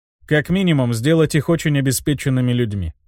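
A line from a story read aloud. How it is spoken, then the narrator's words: Calm. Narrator (Russian): спокойно произнес я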